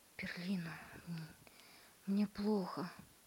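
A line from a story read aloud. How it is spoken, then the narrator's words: Moaning. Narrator (Russian): стонал он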